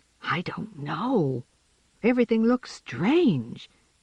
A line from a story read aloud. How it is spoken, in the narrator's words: James whispered back